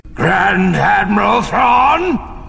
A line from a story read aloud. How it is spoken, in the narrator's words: The shout roared through the bridge like a violent thunderclap, filling it from aft to forward and echoing back again